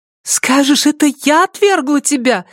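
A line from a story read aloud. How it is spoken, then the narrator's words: Exclamation. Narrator (Russian): воскликнула Филиппа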